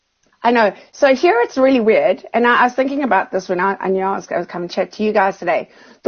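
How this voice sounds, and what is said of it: Strong Australian accent. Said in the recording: “your Australian accent is getting really strong”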